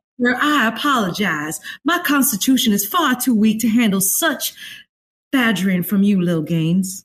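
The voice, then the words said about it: Exaggerated proper Southern accent. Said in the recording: “That's way too good for us Tennesseans... too proper like that”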